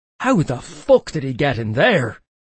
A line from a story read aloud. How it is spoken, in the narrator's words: I snapped